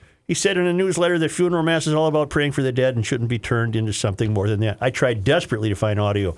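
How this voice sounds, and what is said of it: Usual voice. Nothing is said of it.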